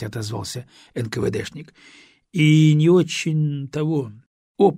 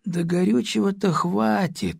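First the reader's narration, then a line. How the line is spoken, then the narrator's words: Doubtful drawl. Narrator (Russian): с сомнением протянул летчик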